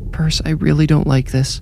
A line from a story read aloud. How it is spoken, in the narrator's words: Brandy whimpered